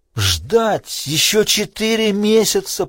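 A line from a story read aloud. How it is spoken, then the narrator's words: Groaned. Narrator (Russian): простонал Крейг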